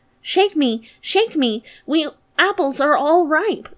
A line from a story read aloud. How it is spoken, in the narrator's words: cried the tree